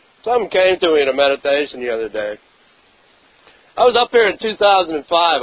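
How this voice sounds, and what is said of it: Congested, stuffy-nosed voice. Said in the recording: “I'm not well. ... I have a cold, so I'm probably going to blow my nose a few times up here.”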